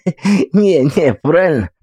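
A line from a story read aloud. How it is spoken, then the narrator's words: Tipsy giggling. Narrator (Russian): пошатываясь, хихикает Смирненок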